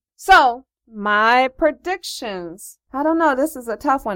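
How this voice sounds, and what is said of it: Speaking very slowly. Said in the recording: “why I'm talking so slow.”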